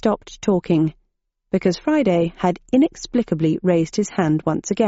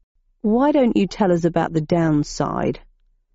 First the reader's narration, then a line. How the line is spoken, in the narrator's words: asked Friday in a sullen voice from beneath a curtain of hair